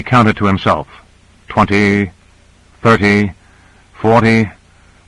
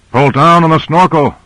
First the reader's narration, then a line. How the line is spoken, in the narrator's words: yelled Grant